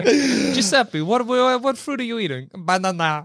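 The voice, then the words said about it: Mock Italian accent. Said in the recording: “banana with an Italian accent?”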